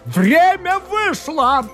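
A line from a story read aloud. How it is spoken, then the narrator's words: Shouted. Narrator (Russian): крикнул лорд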